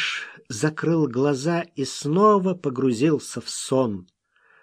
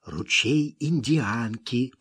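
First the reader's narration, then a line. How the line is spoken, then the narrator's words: Continued whisper. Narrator (Russian): продолжал шептать Смок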